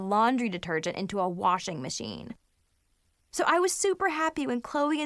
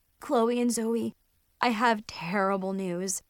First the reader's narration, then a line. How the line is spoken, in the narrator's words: I groaned